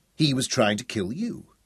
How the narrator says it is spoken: she said firmly

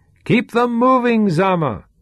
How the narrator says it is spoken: shouted Sean

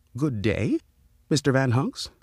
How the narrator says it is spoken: the man said, in a very respectful tone

